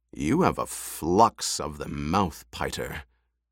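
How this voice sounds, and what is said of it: Cold, icy delivery. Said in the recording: “In a cold voice,”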